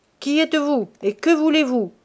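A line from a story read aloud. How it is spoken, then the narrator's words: Mayor shouting loudly. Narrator (French): cria le maire d'une voix forte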